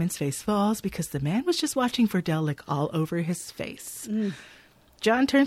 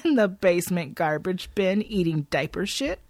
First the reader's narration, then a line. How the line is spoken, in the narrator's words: John chuckles